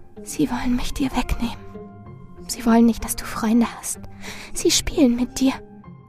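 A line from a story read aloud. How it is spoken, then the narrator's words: Steady unwavering whisper. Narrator (German): Doch Marilyn flüsterte unbeirrt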